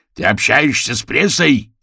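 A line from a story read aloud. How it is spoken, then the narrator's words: Barked. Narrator (Russian): рявкнул он на Орвилла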